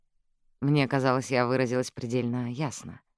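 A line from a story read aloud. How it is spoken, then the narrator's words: Quiet remark. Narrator (Russian): тихо заметила она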